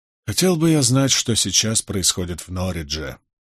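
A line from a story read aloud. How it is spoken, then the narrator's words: Sigh. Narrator (Russian): вздохнул Болейн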